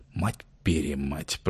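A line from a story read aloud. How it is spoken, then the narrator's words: Whispered curse. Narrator (Russian): прошептал Августин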